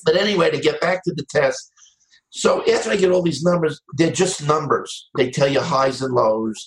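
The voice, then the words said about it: New York accent. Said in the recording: “I heard a New York accent.”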